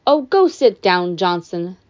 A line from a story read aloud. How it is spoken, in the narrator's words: Dionysus sighed